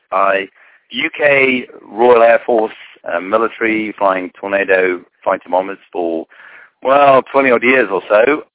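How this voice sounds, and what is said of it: Foreign accent, from the UK. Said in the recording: “as you can tell by the accent, have come from further ashore than most”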